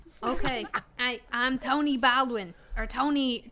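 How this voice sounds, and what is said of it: Usual voice. Nothing is said of it.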